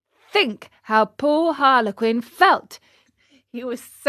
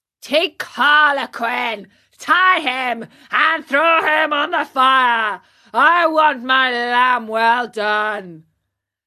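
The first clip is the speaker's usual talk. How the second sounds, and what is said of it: Hoarse yelling character voice. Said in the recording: “yelled at them in a hoarse voice”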